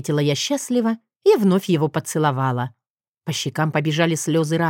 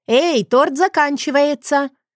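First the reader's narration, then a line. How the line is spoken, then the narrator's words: Shouted. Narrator (Russian): прокричала Мира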